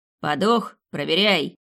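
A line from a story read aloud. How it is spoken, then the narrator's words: Loud bark. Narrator (Russian): гаркнул первый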